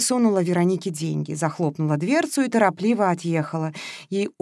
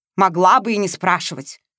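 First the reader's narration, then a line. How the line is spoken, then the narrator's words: Snorting. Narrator (Russian): фыркнула Вероника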